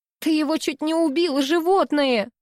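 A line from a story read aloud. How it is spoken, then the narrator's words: Shouting out. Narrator (Russian): выкрикнула Лена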